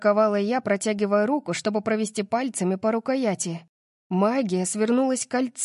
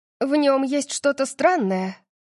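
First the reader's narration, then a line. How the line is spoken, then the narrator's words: Breathed out. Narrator (Russian): выдохнула она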